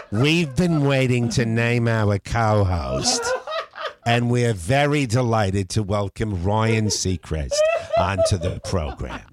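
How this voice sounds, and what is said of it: Put-on New York accent. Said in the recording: “suddenly you'll hear a New York accent enter in”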